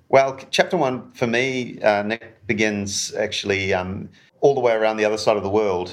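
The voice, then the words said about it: Softened New Zealand accent. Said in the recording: “I'm a New Zealander, which you can probably hear in my accent, although some people tell me I've lost a bit of that over the years ... not entirely anglicised, but maybe yeah, softened.”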